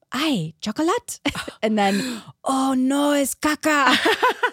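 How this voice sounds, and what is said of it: Terrible put-on accent. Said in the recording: “Forgive my terrible accent.”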